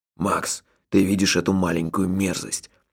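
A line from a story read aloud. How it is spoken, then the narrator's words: Whispered question. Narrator (Russian): шепотом спросил Джуфин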